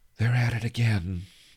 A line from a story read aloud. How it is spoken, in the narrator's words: sighed, not particularly caring if heard her